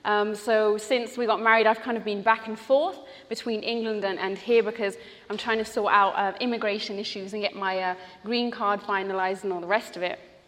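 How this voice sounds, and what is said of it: British accent. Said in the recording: “I lived in England for a long time, which is why I have a British accent.”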